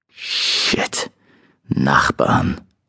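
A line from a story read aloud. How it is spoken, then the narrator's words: Muttering. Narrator (German): murmelte ich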